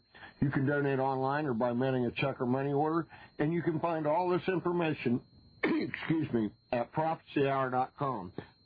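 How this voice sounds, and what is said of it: Strained, fading voice. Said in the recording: “I seem to be losing my voice ... I have a cold and I thought I'm almost over it, but it kind of flares up sometimes”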